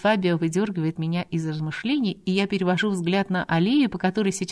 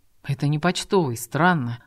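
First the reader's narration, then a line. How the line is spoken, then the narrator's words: Young man mumbling. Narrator (Russian): Бормочет парень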